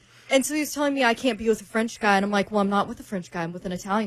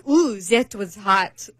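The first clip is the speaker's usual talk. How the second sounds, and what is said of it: Bad put-on foreign accent. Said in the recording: “that was a really bad accent”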